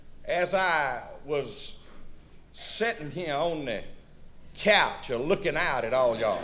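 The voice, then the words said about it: Southern Louisiana-style accent. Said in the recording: “He's got like a Louisiana accent.”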